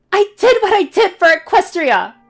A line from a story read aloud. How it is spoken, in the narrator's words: Twilight shouts